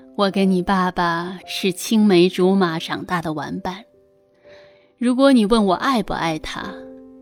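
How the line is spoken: Warm smiling. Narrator (Chinese): 妈妈微笑着说

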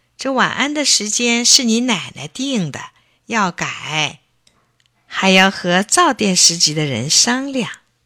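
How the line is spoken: Grandfather laughing. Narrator (Chinese): 爷爷笑道

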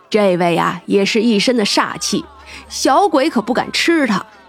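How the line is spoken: Amused chuckle, big man. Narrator (Chinese): 那大汉就笑了笑

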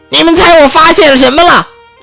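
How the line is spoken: Shouting. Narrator (Chinese): 他就大叫起来

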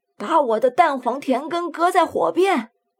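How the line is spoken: Calling out to wife. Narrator (Chinese): 掌柜这时候回头向他妻子叫唤

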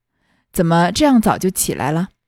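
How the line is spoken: Forced polite smile, asking. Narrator (Chinese): 薛科……只得陪笑问道

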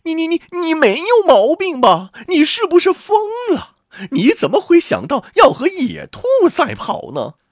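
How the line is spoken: Shouting. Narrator (Chinese): 他的女人叫道

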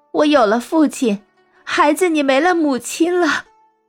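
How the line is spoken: Crying. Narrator (Chinese): 他哭着说

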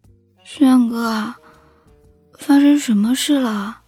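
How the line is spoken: Drowsy murmur. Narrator (Chinese): 迷糊中……风燕妮……喃喃的说道

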